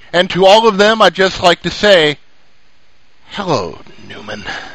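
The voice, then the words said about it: Poor imitation of another person's voice. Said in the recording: “your bad Seinfeld impression”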